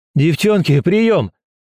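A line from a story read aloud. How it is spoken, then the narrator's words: Shouting. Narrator (Russian): закричал он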